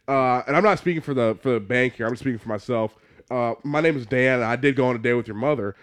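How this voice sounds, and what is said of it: Slipping into a put-on Southern accent. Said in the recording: “why did he slowly get revert into a southern accent?”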